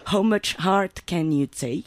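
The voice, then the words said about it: Put-on English accent. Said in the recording (French): “avec mon meilleur accent anglais”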